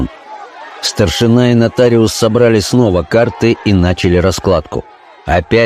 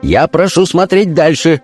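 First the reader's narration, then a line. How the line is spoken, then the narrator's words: Shouting. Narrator (Russian): закричал офицер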